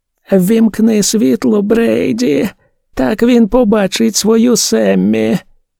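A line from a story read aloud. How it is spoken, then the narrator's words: Flat lifeless voice. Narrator (Ukrainian): Тим самим безживним голосом Дебора Енн промовила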